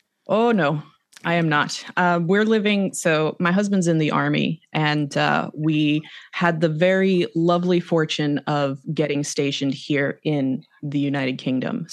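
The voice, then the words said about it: Slight non-British accent twang. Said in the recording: “I can detect a small little twang of a accent there. But I believe you are in the UK... But you're not from the UK.”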